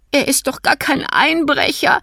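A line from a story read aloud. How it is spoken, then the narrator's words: Sobbing. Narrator (German): schluchzte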